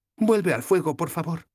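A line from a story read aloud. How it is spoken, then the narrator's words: Pleading. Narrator (Spanish): me suplicó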